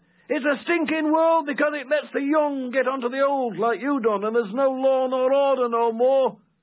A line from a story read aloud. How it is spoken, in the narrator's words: He cried out